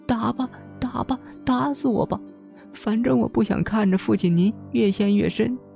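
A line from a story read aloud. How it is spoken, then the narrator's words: Sobbing bitterly. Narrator (Chinese): 贝纳欧痛哭起来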